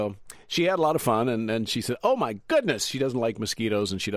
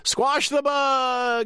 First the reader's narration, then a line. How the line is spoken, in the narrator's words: the crowd started to yell